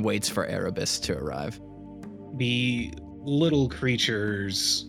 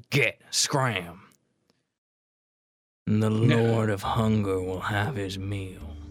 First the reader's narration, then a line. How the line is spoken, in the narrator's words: Beck, while all these chupacabras are here, growls at them and just says